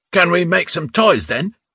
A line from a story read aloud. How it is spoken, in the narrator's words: Ruska shouted cheerfully from another top bunk